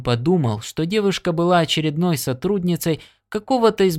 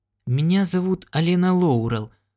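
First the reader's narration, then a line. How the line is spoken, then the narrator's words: Hesitant. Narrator (Russian): сказала она неуверенно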